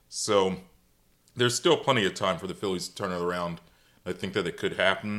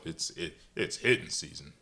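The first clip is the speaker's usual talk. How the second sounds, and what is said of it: Poor imitation of another person's voice. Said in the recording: “This is a very poor Charlie Manuel impersonation.”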